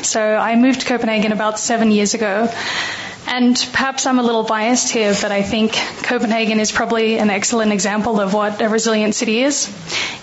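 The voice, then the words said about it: Australian accent. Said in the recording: “if you notice from the accent, I'm actually Australian.”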